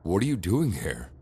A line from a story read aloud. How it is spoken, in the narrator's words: I asked her